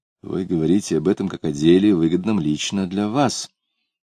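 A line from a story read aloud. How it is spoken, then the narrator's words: Mutter. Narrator (Russian): он пробормотал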